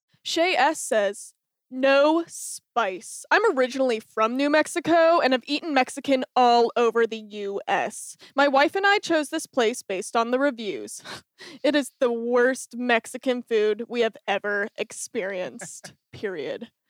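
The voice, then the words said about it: Reads in a funny voice. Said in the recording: “read in a funny voice”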